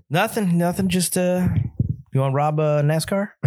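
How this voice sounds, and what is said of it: Put-on accent. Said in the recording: “Nice accent. ... Sorry, still had the accent. ... Still in the accent.”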